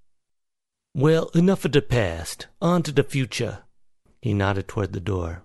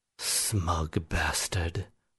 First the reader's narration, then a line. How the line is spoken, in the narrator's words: William said in a low voice